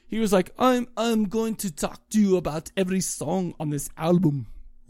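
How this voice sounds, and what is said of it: Imitated Austrian-accented voice. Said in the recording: “my best Arnold Schwarzenegger impersonation. That's Austrian. That's not even German.”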